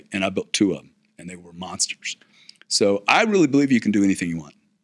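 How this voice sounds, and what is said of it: Texan American accent. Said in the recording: “from where I was in Houston, Texas ... with this accent”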